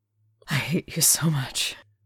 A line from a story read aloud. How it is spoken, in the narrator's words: Crowley panted